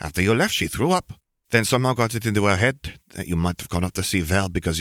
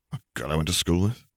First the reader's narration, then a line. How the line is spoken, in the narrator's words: Harry murmured